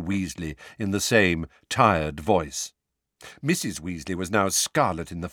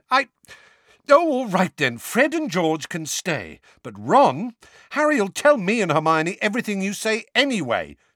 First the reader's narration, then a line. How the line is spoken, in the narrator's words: said Ron hotly